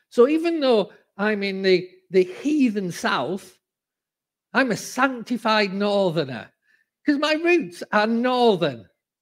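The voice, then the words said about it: Northern accent. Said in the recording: “I have not changed my accent at all ... I will always be a northerner”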